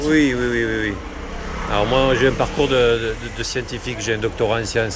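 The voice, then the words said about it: Southern French accent. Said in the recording (French): “l'accent que j'ai ... l'accent du Sud”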